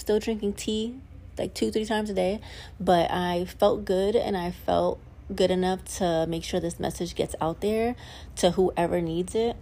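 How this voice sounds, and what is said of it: Voice slightly rough, not at best. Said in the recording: “I had a sore throat. I just didn't feel like speaking... My voice is not the best at the best right now.”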